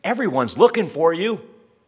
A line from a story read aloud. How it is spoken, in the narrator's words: they exclaimed